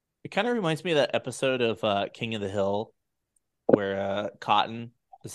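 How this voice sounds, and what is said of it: Usual voice. Nothing is said of it.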